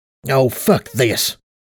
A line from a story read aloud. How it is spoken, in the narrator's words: growled